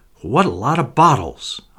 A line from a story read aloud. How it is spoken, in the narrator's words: exclaimed